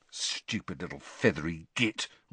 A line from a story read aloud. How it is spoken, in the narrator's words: Ron hissed